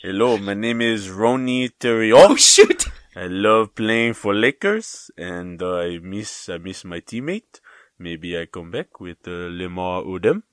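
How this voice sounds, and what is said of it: Imitates another person's French-accented voice. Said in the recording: “He was from France, right? Wasn't he like French? ... That was very good. ... I'm very impressed by that impression.”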